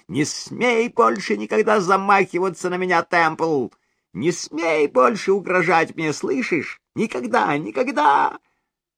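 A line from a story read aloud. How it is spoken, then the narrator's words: Shrill shrieking shout. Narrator (Russian): пронзительно срываясь на визг, закричала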